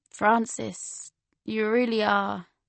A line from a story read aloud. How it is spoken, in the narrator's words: he smiled sadly and said